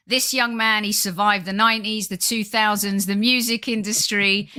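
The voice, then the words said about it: Lovely radio presenter voice. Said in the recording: “I think you've got a lovely sort of radio voice.”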